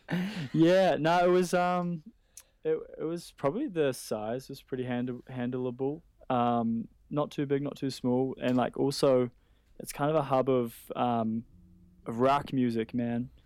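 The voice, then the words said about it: Speaks with a noticeable accent. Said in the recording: “The accent came out”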